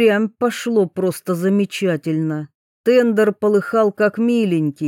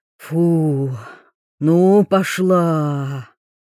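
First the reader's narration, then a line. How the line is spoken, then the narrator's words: Satisfied exhale. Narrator (Russian): Белкин довольно выдохнул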